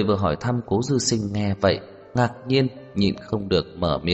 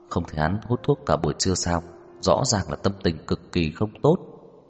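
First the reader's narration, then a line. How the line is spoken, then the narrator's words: Low, quiet voice. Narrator (Vietnamese): Lục Bán Thành ... nhỏ giọng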